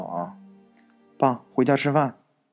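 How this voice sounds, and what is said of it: Weak, timid young girl's voice. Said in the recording (Chinese): “有一个女孩弱弱的声音说道”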